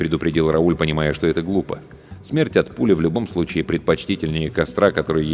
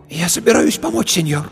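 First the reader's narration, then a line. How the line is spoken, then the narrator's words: Hoarse with excitement. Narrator (Russian): Ее голос стал хриплым от волнения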